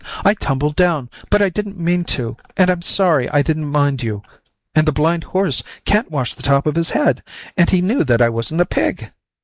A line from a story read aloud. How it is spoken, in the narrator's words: cried the white kitten